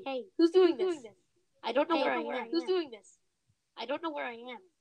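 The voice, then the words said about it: Funny, altered-sounding voice. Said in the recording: “My voice just went all funny.”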